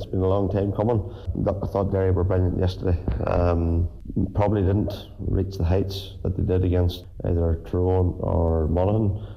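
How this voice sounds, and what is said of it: Hoarse, strained voice. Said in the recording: “As you can maybe tell by the sound of the voice, pretty hoarse here from all the shouting they done yesterday”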